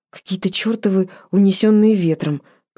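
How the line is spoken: Muttered. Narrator (Russian): пробормотала она

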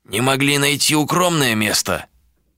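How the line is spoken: Grumbling. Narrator (Russian): проворчал Эш

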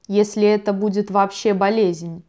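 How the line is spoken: Plain. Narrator (Russian): сказал Ульбранд

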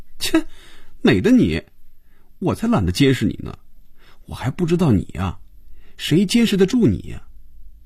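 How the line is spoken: Laughing. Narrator (Chinese): 菲比笑了

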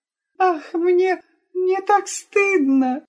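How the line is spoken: Sobbing mumble, maid. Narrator (Russian): рыдая, пробормотала служанка

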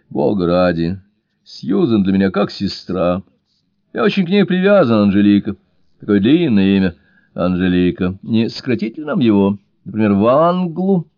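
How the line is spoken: Hearty laughter. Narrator (Russian): от всей души засмеялся

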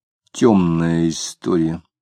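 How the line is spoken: Quiet. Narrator (Russian): тихо сказал

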